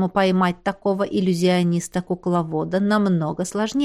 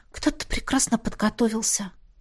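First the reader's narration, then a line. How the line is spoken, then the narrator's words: Sighing. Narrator (Russian): вздохнула я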